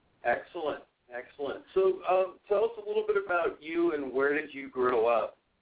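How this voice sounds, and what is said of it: Slightly out of breath. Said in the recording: “I'm a little out of breath because I ran downstairs and ran back upstairs”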